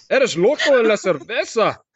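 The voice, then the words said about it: Spanish words in Scottish accent. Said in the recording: “didn't you say that in Spanish in a Scottish accent?”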